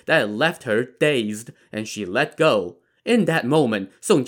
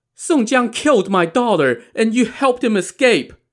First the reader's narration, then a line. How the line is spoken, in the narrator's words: yelled at him